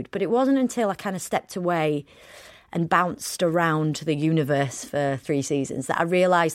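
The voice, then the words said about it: Broad Yorkshire accent. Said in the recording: “I don't feel like I can articulate myself unless I'm Broad Yorkshire”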